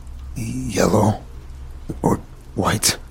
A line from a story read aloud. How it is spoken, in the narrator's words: I replied, stuttering